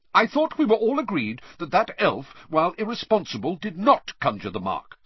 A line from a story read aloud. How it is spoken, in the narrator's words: said Percy hotly